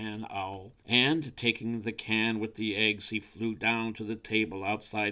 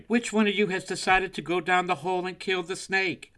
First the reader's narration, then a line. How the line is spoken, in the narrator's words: cried